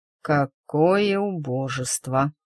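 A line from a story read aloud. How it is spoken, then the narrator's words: Slow, through gritted teeth. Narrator (Russian): медленно процедил он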